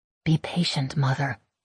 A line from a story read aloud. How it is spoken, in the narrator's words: I murmur